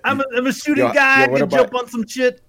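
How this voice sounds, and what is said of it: Bill Cosby impression. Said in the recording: “doing a Bill Cosby impersonation.”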